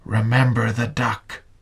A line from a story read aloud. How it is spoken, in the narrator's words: She whispered again